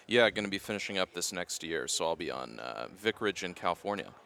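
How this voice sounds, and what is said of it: Smooth, resonant radio-style voice. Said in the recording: “you have a great radio voice”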